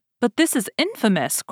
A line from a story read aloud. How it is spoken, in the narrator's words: cried he